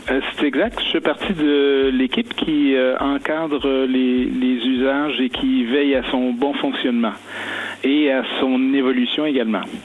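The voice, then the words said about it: Strong Québécois French accent. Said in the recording (French): “un petit accent québécois ... Même un fort accent”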